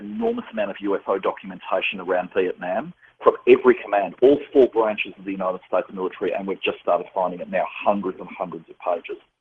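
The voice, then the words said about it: Strong accent. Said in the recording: “My accent, is it too strong?”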